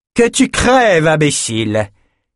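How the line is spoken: Shouted, then nasty sneer. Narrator (French): cria avant de ricaner méchamment

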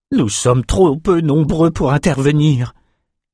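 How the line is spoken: Moan. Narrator (French): gémit Ren

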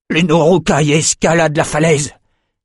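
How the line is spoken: Terrified officer shouting. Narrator (French): cria un officier vert de peur

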